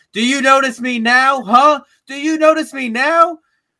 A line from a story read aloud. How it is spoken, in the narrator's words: screaming